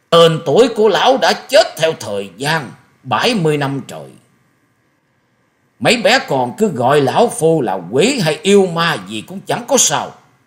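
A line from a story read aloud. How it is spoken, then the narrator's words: Shrill laugh, booming question. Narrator (Vietnamese): Quái nhân áo đen bỗng cười lên mấy tiếng the thé như quỷ rú trong đêm sâu, rồi ầm ầm cất tiếng hỏi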